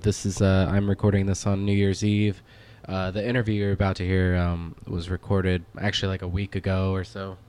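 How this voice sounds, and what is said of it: Sick, under-the-weather voice. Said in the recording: “You could probably hear it in my voice. I'm a little bit sick, a little bit under the weather.”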